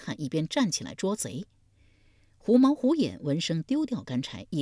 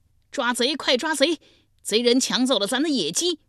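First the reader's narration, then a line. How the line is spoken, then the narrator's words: Startled loud shout. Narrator (Chinese): 脚步声惊动了重耳，大声喊道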